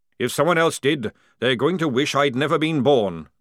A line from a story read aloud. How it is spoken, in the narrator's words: growled Jackram